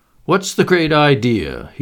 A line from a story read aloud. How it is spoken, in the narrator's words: said, laughing